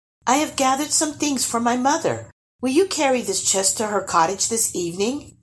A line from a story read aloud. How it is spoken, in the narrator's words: she added sweetly